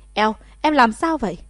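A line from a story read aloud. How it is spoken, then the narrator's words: Sudden loud shout. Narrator (Vietnamese): Mạc Đại Ca đột nhiên quát to một tiếng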